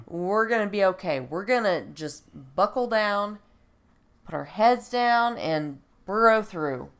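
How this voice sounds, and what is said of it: Raspy, congested voice. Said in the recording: “apologize for my voice. I'm trying to get over the flu, which has now turned into a sinus infection, so I'm a little raspy.”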